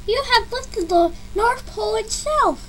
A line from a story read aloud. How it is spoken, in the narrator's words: he gasped incredulously